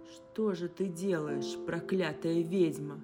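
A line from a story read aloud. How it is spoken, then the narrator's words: Growled. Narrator (Russian): прорычал Хакон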